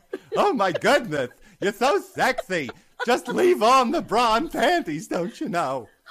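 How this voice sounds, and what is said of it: Ed Wynn impression. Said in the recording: “Ed Wynn ... do an Ed Wynn impression”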